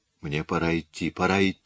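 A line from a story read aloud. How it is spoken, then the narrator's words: Whispering. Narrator (Russian): шептала она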